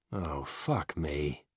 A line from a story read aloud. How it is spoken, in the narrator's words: Stelfox sighs